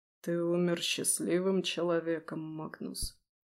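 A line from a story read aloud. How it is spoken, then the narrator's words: Barely audible. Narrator (Russian): едва слышно выговорил Нестор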